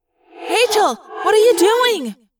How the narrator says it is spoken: Cassie yelled

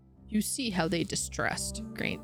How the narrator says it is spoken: Saint grumbled

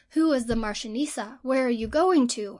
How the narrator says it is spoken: exclaimed, aghast

